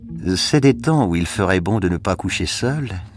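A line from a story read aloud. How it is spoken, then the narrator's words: Dreamy woman's voice. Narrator (French): fit la femme d'un ton rêveur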